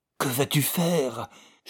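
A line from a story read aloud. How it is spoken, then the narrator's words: Hoarse whisper. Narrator (French): chuchota d'une voix rauque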